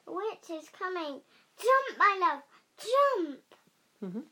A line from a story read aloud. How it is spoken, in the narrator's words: shouted